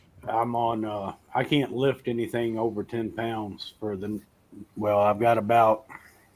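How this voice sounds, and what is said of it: Twangy accent. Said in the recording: “that twang that ... got there”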